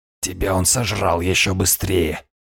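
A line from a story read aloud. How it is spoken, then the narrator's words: Hoarse breathy exhale. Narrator (Russian): хрипло выдохнул хозяин штормов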